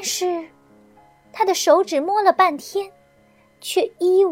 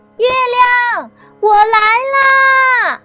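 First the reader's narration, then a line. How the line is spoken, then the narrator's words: Shouting. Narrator (Chinese): 大喊一声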